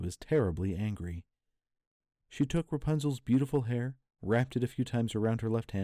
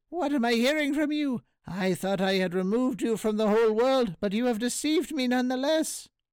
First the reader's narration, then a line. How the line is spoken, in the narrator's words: cried the witch